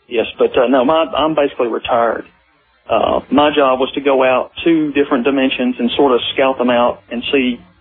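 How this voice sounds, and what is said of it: Southern American accent. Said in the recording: “I can hear the southern accent in you. No question about it.”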